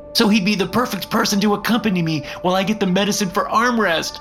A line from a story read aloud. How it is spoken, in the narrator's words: cried Footstool